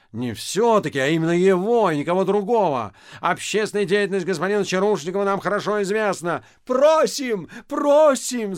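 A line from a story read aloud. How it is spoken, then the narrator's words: Crowd shouting. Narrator (Russian): закричали все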